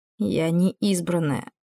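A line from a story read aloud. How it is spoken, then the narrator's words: Hoarse. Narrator (Russian): хрипло сказала та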